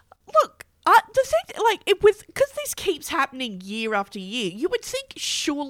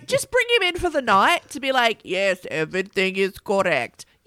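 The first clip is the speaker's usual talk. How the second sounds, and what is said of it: Put-on Norwegian accent. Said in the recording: “was that a Norwegian accent? ... Yes.”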